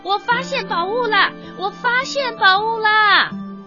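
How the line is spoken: Loud voice. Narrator (Chinese): 他大声地说

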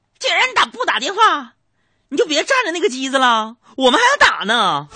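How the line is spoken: Impatient woman shouting. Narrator (Chinese): 有个妇女啊，就忍不住喊道

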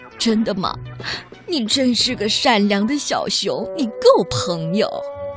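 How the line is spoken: Old donkey crying. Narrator (Chinese): 老驴一边哭一边说

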